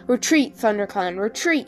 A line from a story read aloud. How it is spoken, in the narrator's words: he yelled